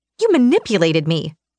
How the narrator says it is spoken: I snapped

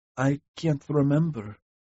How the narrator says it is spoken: she said quietly

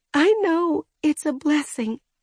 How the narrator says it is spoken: she sobbed

